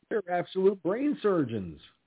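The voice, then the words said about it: Sarcastic delivery. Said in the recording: “That's being sarcastic, folks, in case you're wondering.”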